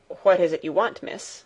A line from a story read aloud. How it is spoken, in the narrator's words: Sebastian looked surprised and said somewhat curtly